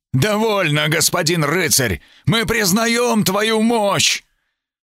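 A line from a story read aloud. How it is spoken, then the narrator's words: Frightened shout. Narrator (Russian): Один из стражей прокричал устрашенно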